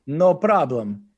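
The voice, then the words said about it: Convincing put-on Russian accent. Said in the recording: “can you do it like a Russian accent? ... Oh, that's good. ... That's a pretty damn good accent.”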